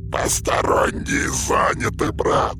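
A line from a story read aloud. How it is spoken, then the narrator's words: Hissing. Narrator (Russian): прошипел Учжхав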